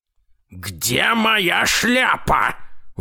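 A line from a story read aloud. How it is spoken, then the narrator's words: Grandfather roaring. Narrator (Russian): взревел дедушка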